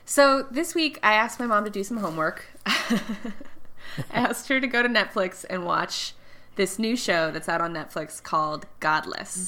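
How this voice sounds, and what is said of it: Congested, nasal voice from a cold. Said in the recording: “has a little bit of a cold. Can you hear it in my voice? ... You sound a little nasally ... I might always sound a little nasally, but today especially”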